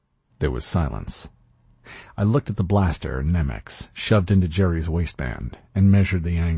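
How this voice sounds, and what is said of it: Usual voice. Nothing is said of it.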